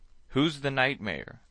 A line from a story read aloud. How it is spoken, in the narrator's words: I cried